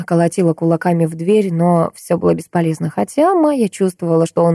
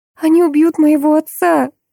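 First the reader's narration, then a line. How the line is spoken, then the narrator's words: Moaning. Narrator (Russian): простонала девушка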